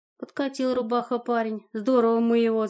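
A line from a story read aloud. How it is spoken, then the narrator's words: Laughing. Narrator (Russian): засмеялась я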